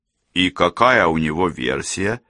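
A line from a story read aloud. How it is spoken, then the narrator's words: Plain. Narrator (Russian): спросил Сэм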